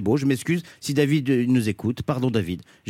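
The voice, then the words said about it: Put-on pied-noir accent. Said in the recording (French): “à chaque fois que tu dis le prénom David, tu prends l'accent pied-noir”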